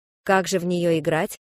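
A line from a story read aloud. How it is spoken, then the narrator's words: Plain question. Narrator (Russian): спросил Фред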